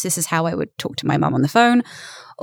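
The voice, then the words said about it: Laid-back British accent. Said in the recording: “if you wanted me to switch into a British accent, I can do kind of a laid back... my standard voice in British”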